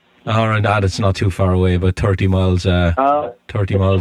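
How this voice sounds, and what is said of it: Irish accent. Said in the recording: “Where's that accent from? Which part of Ireland?”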